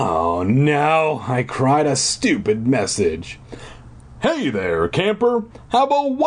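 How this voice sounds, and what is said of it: Usual voice. Nothing is said of it.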